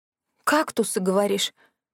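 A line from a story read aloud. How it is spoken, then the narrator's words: Hoarse rasp. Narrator (Russian): прохрипела я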